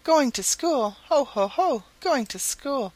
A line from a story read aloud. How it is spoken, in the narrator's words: exclaimed Happy Jack